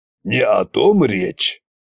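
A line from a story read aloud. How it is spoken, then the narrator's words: Grumbled. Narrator (Russian): пробурчал Кощей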